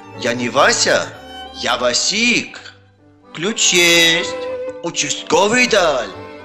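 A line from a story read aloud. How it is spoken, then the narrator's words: Plain. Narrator (Russian): ответил ночной гость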